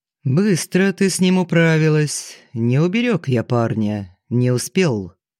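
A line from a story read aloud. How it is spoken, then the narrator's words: Unexpectedly calm, even tone. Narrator (Russian): неожиданно спокойным, ровным тоном, точно речь шла о прогулке в ближайшем парке, Фридман сказал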